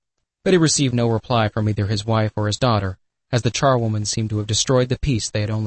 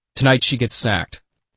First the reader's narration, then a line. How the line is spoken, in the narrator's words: said Mr